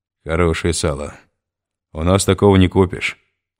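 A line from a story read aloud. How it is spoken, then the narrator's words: Plain. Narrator (Russian): сказал жерть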